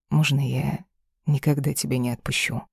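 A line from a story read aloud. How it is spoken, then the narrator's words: Hot whisper in ear. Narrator (Russian): Шепотом на ухо, обжигающе горячо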